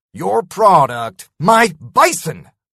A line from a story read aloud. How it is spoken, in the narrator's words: I spat